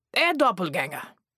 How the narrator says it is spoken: he barked

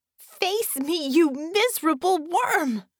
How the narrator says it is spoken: Bella screamed and projected that across the 50 yards or so that separated her and Jero

